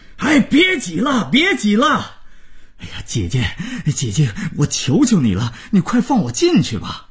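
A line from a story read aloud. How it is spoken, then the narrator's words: Groom's loud roar. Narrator (Chinese): 新郎大吼着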